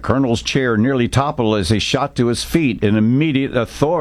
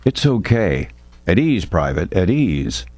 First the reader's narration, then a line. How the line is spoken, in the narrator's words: It was Sergeant Jimenez who calmly chimed in